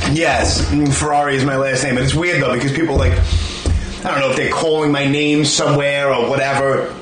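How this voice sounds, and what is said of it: Brooklyn accent. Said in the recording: “your Brooklyn accent”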